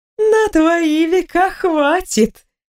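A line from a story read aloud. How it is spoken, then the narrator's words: Laughing void voice. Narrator (Russian): рассмеявшись, произнесла пустота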